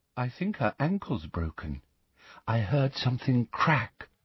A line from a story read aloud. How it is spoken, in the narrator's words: whispered Luna